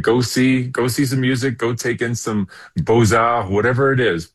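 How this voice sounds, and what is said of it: French accent on one phrase. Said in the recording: “with the French accent there, Beaux-Arts”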